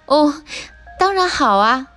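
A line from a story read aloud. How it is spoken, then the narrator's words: Laughing reply. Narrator (Chinese): 贝琳达笑着回答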